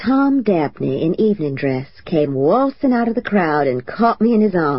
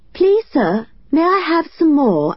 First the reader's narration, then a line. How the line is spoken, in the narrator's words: I piped in as good a British child's voice as I could manage